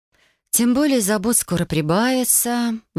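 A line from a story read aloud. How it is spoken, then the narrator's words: Sighing. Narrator (Russian): вздохнула я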